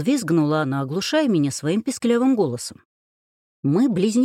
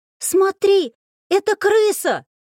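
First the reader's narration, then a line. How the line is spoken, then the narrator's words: Shrieking. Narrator (Russian): продолжала Элина, при этом не переставая визжать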